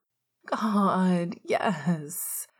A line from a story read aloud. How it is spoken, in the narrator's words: Sirius whined